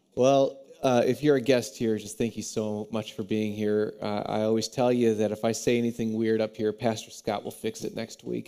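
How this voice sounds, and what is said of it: Raspy, congested voice. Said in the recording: “there's a lot of gunk happening in my face right now ... it's going to be a little raspy today ... I sound like Phoebe from Friends when she had her sexy voice”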